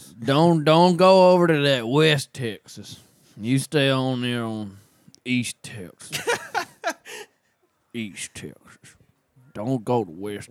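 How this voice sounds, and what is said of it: Put-on Texan accent. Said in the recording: “you got the accent down”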